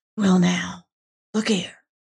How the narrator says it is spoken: he went on still in a whisper

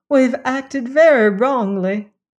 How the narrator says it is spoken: she wailed

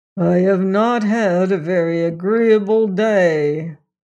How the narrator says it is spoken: said Tucker in a voice so low and deep it was almost a growl

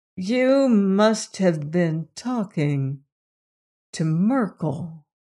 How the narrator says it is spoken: she said slowly

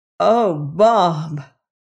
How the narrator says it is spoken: Adderay cried in a stricken voice

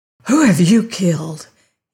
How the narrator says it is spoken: he panted

